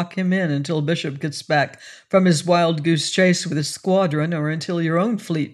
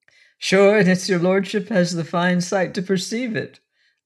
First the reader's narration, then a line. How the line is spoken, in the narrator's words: laughed the captain